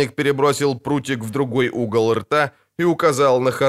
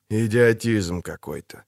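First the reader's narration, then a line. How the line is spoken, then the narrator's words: Tired voice. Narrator (Russian): сказал Геральт утомленным голосом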